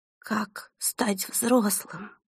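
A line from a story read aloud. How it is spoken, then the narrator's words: Trembling voice. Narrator (Russian): дрожащим голосом повторила Селеста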